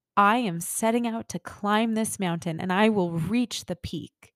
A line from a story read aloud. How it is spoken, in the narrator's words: the soul exclaims